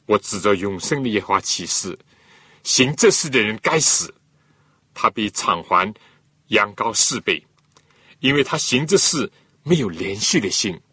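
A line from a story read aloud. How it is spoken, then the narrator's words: Angry. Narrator (Chinese): 大卫听见这就非常的恼怒，对拿单说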